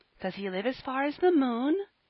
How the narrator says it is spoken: asked little Phronsie, anxiously

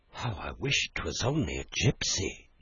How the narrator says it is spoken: murmured

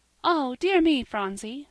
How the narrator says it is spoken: cried Polly

